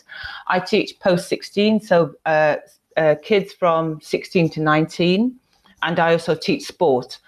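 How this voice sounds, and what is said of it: British accent. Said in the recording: “So I'm from the UK, if you can tell by my accent.”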